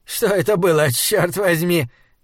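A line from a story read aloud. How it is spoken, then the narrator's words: Nervous laugh, old man. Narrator (Russian): нервно рассмеялся старик Авигар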